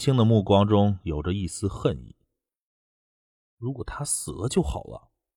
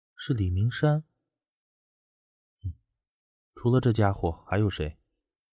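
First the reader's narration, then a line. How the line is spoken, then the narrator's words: Low voice. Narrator (Chinese): 低声道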